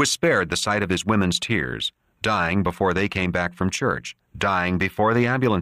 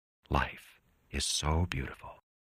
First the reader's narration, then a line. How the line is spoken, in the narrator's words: he whispered